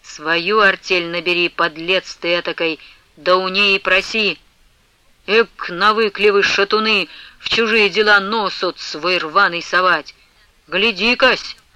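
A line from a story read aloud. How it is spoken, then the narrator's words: Interrupted speech. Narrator (Russian): вздумал было продолжать Варсонофий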